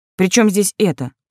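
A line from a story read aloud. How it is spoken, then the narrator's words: Irritated question. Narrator (Russian): поинтересовалась раздраженно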